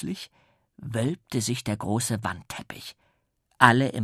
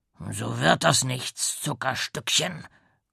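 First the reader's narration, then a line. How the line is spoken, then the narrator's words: Deep voice grumbling. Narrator (German): brummte eine tiefe Stimme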